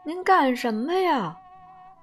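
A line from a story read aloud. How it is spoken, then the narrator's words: Devil crying out. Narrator (Chinese): 魔鬼叫起来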